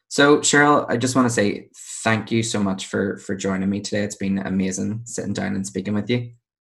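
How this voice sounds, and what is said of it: Belfast accent. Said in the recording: “another Belfast accent ... two Belfast accents at one time”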